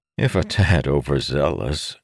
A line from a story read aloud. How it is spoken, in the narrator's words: Doroth said, chuckling